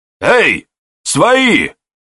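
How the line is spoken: Surprised shout. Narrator (Russian): Подивившись, крикнул дядька Кондрат

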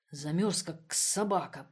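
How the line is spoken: Grumbled. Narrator (Russian): проворчал он

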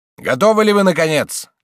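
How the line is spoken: Shout. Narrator (Russian): крикнул он

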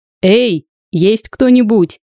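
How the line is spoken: Shout into silence. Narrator (Russian): Сергей первым делом крикнул в тишину

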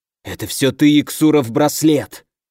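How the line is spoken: Hissing. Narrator (Russian): прошипел фон Корос

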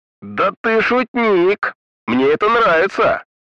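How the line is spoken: Loud glitchy yelling. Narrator (Russian): Громко заорал первый, словно у него барахлила система звукопередачи

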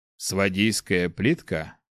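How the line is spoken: Thoughtful question. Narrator (Russian): задумчиво спросил Баял

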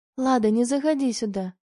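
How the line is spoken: Gentle request. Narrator (Russian): мягко попросила

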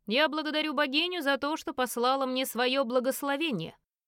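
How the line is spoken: Loud declaration. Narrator (Russian): Альфа громко произнес

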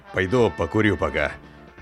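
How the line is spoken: Steely, hard voice. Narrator (Russian): дядя Коля железным голосом говорит

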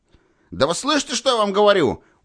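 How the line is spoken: Irritated shout. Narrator (Russian): уже раздражаясь, крикнул он

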